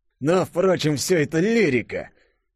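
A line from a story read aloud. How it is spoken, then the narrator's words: Through gritted teeth. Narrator (Russian): процедил Штерн сквозь зубы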